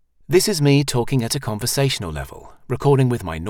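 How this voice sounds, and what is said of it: Usual voice. Nothing is said of it.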